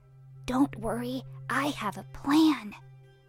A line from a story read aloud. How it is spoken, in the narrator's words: whispered Hansel to Gretel